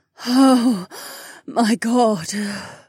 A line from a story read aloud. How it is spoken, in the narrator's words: Kat breathed